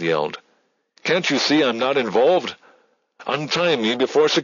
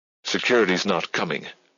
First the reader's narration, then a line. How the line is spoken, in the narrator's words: she snapped flatly